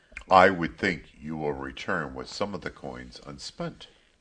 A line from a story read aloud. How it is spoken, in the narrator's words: Min had said gruffly